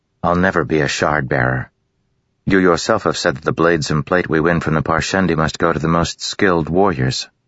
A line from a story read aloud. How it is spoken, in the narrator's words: Renarin said flatly